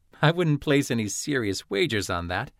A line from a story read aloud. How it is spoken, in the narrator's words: Atherin chuckled